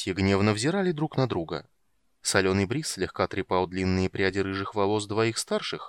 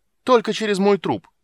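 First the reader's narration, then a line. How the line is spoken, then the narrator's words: Shouted in chorus. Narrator (Russian): будто сговорившись хором крикнули три брата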